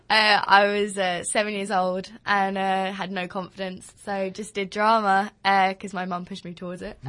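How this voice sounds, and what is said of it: Strong Essex accent. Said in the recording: “Home is in Essex. Fantastic. In Upminster. I don't know if you could tell from my voice. ... I'm really holding back. I'm like proper Essex.”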